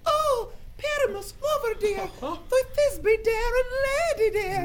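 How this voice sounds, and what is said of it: Tiny high-pitched feminine voice. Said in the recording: “I'll speak in a monstrous little voice.”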